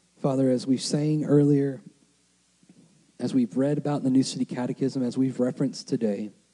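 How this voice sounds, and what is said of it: Strained, hoarse voice. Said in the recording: “losing my voice.”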